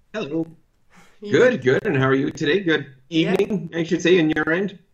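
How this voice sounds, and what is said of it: Canadian accent. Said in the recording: “this lovely Canadian accent”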